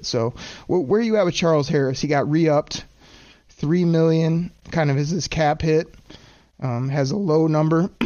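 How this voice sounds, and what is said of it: Strained, failing voice. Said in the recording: “I'm losing my voice here”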